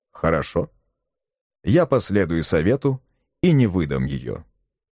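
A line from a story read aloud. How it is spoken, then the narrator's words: Plain. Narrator (Russian): сказал Барбекен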